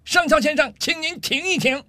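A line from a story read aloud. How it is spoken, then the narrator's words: Angry loud shout. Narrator (Chinese): 上尉气得涨红了脸，冲着上校的方向大声喊道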